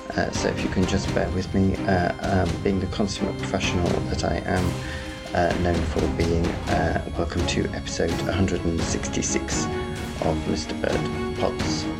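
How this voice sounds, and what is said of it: Strange, low-energy sick voice. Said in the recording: “it's just a bad cold... my voice is a bit strange and I'm quite lacking in energy”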